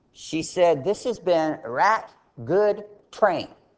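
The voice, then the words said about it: Imitated American Southern accent. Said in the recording (Chinese): “她有南方的口音 ... 有些人听不懂她南方口音”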